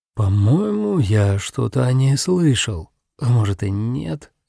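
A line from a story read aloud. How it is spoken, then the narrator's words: Uncertain. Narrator (Russian): неуверенно произнес Такаюки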